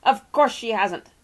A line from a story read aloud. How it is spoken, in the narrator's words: snapped Mr